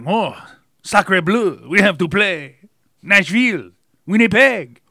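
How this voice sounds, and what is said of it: Bad cartoonish French accent. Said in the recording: “Bad cartoon accent”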